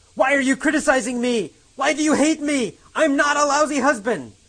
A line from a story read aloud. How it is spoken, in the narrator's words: yells